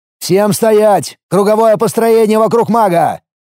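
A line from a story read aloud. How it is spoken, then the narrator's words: Loud command. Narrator (Russian): громко скомандовал я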